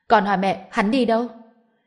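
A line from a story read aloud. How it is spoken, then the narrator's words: Loud angry scolding. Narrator (Vietnamese): Sở Phi lớn tiếng quát mắng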